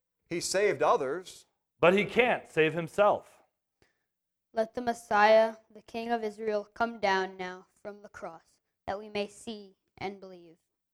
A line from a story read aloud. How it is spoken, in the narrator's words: the chief priests and the teachers of the law mocked him among themselves, saying